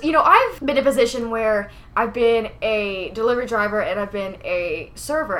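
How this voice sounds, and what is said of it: New Jersey accent. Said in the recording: “he heard my accent, surprise, surprise. And he was like, oh, you must be from Jersey.”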